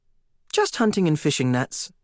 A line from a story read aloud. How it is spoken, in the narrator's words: I said